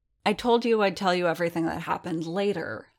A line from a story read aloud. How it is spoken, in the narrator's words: Strill grumbled